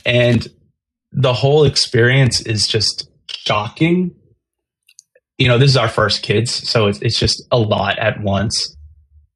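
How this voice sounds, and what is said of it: Emotional, moved voice. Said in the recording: “you probably hear it in my voice. ... It's super emotional.”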